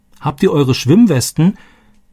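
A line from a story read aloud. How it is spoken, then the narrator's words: Called after. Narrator (German): rief Roberto ihnen nach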